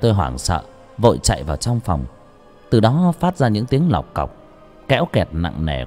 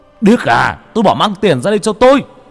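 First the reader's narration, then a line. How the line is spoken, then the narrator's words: Angry roar. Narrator (Vietnamese): cha tôi tức lắm ... gầm lên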